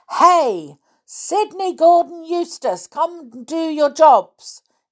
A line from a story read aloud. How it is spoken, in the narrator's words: yelled Tom